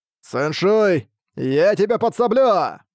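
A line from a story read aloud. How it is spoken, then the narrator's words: Shouted. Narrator (Russian): закричал он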